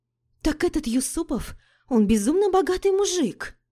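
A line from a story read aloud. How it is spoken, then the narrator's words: Exclaimed. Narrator (Russian): воскликнула Лика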